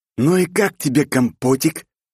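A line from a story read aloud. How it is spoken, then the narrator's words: Angry hiss. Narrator (Russian): Скорчив злую рожу, прошипел ему в лицо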